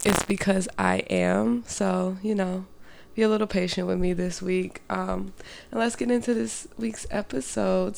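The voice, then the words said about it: Sounds sick. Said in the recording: “I sound sick”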